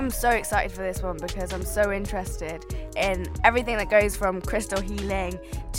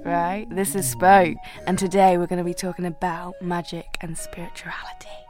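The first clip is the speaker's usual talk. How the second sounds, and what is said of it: Whispering. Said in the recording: “how I'm whispering”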